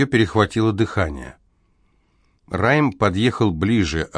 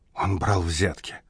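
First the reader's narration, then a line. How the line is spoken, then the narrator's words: Whispering. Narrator (Russian): прошептала Амелия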